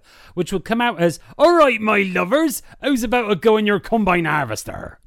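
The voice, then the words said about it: Put-on West Country Bristol accent. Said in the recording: “what about we go to the West Country around Bristol?”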